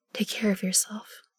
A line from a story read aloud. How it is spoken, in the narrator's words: I whisper to Em